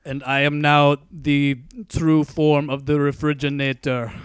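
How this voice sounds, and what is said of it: Put-on Austrian accent. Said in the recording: “He's turned Austrian. ... that accent”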